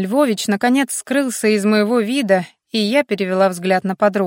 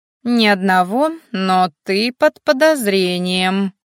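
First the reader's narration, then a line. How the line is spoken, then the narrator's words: Loud laughing. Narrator (Russian): захохотала Сонька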